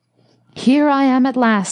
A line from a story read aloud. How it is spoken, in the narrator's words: exclaimed the professor, somewhat wearily